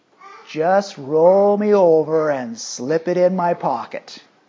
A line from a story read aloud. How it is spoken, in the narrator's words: He simply drawled